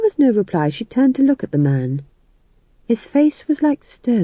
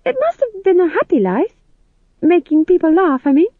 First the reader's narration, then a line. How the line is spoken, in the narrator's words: said McGrath, her voice higher than usual with a vibrato of uncertainty